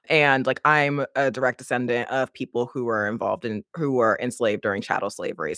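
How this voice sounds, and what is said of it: American accent. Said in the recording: “you can hear my accent. I'm American.”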